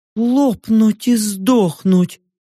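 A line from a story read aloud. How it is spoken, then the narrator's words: Strained, forced out. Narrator (Russian): выдавила Йорка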